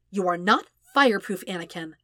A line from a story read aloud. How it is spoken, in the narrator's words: Padme told him firmly